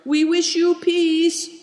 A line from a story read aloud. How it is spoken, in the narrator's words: cried Big Tiger